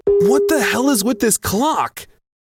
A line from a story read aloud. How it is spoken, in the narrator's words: I yelled